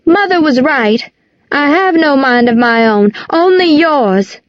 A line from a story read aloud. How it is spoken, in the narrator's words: she shouted